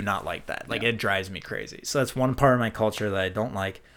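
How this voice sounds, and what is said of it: Minnesota accent. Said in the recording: “my Minnesota accent. I love my Minnesota accent. My friends when I lived abroad just gave me so much crap about ... my Minnesota ... accent”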